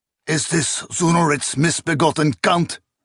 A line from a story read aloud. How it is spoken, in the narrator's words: He snarled